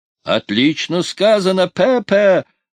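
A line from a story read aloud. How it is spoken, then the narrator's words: Delighted yell. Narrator (Russian): восторженно завопил Зип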